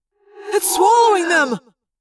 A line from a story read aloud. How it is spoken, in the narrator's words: Tobias cried